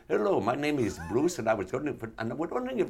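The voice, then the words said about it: Put-on South Asian accent. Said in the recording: “we know you weren't Indian ... I was doing a very good accent ... Tell me I don't sound like I'm... Whatever, Pakistani”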